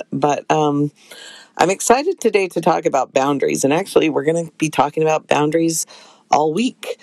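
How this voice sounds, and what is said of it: Voice affected by a cold. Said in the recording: “I still have a cold ... forgive my voice”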